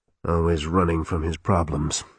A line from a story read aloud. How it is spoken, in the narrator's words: he muttered